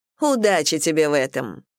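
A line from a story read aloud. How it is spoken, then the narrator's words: Snorting. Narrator (Russian): фыркнула номер 2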